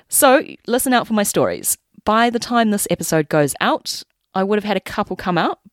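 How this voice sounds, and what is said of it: New Zealand accent. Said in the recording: “Kiwi accent”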